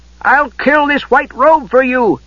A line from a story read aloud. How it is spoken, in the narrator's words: Tass shouted